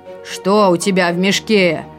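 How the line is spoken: Stern roaring bear. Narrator (Russian): строго проревел медведь

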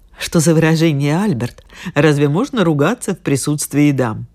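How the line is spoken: Woman, embarrassed giggle. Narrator (Russian): сказала одна женщина и смущенно хихикнула

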